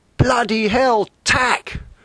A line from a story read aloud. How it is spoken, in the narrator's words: that punctured Julian's reverie, and he shouted